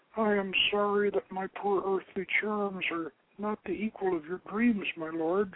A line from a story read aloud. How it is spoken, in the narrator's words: she murmured, weeping softly